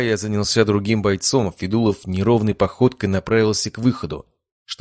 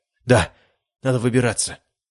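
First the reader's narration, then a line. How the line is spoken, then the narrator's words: Mumbling. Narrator (Russian): пробормотал майор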